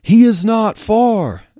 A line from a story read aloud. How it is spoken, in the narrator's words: Athanasius, cloaking his visage, shouted back